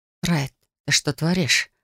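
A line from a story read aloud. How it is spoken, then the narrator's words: Anxious whisper. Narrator (Russian): прошептала я, нутром чуя грядущие неприятности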